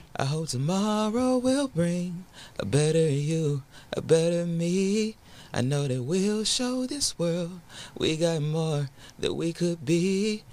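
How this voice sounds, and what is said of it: Raspy singing voice. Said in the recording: “My voice sounds a little bit raspy,”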